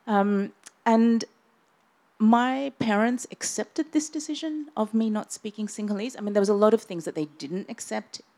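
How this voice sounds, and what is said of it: Australian-sounding accent. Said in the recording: “you would think that I'm Australian ... I tried to change my accent. And did successfully ... it's the kind of accent that still adapts and shifts”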